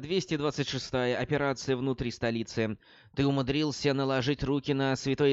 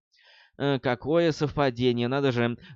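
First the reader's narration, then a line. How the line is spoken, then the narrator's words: Loud laughter. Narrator (Russian): расхохотался Тео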